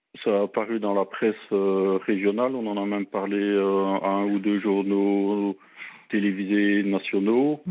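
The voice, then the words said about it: Slight Belgian French accent. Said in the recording (French): “un petit accent belge”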